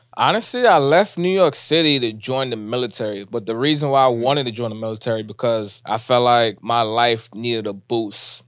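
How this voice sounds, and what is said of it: Heavy New York accent. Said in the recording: “You from New York. I'm sure everybody could tell by the accent. It's heavy.”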